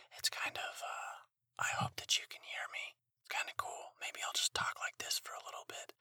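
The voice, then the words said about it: Whispering. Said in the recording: “I'm also trying to be kind of quiet... this is the first time that I'm whispering on my podcast”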